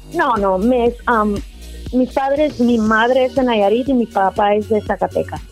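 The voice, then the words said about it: American-sounding accent in Spanish. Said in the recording (Spanish): “escucho en tu acento así como que te escuchas así como, como muy americana”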